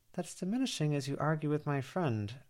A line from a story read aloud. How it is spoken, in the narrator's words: Verona murmured